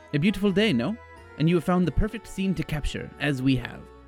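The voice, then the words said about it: Put-on French accent. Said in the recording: “the one who spoke to you in a French accent”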